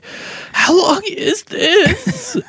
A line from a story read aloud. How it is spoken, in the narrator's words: half the sounders laughing and then groaning and then being like